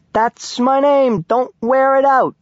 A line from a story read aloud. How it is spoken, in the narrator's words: I hollered